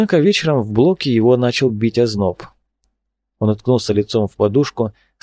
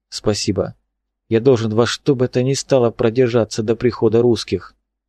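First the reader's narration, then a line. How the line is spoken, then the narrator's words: Said quietly. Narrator (Russian): Олафсон успел негромко сказать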